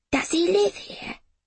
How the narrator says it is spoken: Jamie whispered

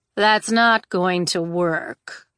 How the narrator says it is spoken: Jax drawled

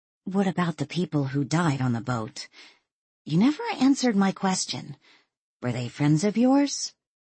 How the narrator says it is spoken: Walt sighed wearily

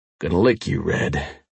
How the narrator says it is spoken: I said, my voice deep and raw

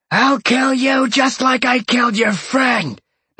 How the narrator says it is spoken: the guy screamed at Sean

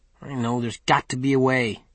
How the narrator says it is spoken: muttered

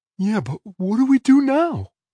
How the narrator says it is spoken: Benji asked, his voice quavering

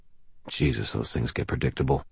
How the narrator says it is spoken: I muttered

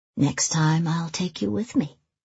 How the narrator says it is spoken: she says softly

